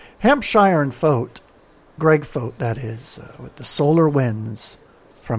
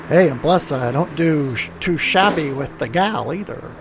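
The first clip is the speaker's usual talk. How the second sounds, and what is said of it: Bad old-time American sitcom accent. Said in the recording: “I don't know what accent that was. I don't know if it was something from the Honeymooners or something from the Andy Griffith Show. Whatever it was pretty bad.”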